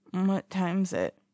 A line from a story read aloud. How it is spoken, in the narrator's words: Wei Ying mumbles groggily